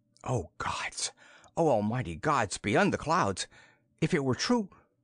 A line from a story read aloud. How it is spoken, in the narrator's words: His voice shook